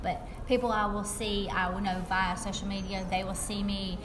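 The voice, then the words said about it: Southern American accent. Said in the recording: “people hear my accent and they're like, she's from the South”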